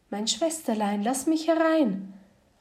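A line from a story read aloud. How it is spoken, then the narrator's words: Calling out. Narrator (German): rief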